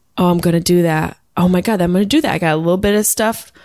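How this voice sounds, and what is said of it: Usual voice. Nothing is said of it.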